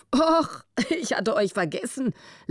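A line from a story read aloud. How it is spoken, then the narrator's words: Amused laughing. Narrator (German): lachte er, halb grinsend vor Vergnügen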